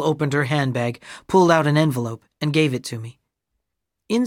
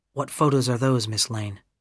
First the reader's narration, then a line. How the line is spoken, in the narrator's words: I asked quietly